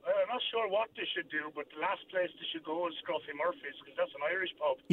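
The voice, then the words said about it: Noticeable accent, possibly Irish. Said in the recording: “I can detect an accent from you.”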